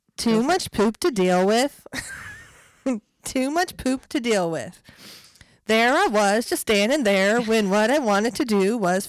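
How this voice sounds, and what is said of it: Put-on Swedish accent. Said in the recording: “I hate to ruin it with my accent, but the only thing I know that's Swedish is the Swedish chef from the Muppets”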